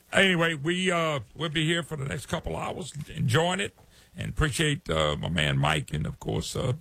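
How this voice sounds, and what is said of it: Louisiana Southern US accent. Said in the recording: “I'm out of Louisiana, so you're saying, yeah, I'll recognize that accent. It's Louisiana, trust me. They all talk funny down here.”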